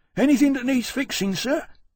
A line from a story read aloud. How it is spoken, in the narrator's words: Winston, one of the harness men, gasping